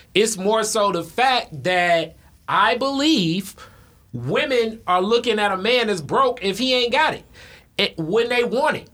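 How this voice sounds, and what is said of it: Talking very loudly. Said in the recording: “why I'm talking so loud”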